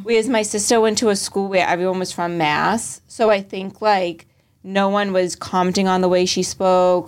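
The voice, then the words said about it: Boston accent. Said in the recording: “in Boston, no one ever commented on my accent, because we all sound like that ... my accent got like stronger ... the Boston accent”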